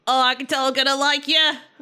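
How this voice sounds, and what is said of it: Put-on accent that drifts. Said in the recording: “Wait, I completely changed my accent.”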